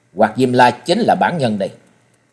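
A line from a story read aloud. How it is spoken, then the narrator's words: Cold. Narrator (Vietnamese): Trần Lâm lạnh lùng ... nói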